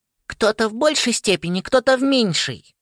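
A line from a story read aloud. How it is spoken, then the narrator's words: Thin squeaky voice. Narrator (Russian): пропищал тонкий голосок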